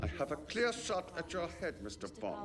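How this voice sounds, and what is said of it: Plausible put-on German accent. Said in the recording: “does a very plausible German accent here.”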